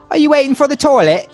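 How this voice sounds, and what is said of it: Poor imitation British accent. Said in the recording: “my terrible British accent”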